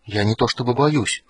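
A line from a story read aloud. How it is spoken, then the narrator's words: Whispered confession. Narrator (Russian): шепотом сознался он Флинту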